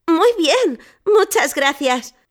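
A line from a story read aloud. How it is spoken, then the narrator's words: Exclaiming. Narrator (Spanish): exclamé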